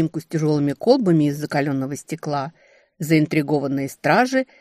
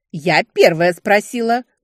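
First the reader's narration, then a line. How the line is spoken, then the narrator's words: Snorting. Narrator (Russian): фыркнула я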